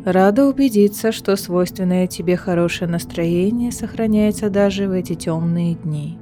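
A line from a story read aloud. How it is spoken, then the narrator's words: Flat, colorless voice. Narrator (Russian): ровным бесцветным голосом произнесла фейская королева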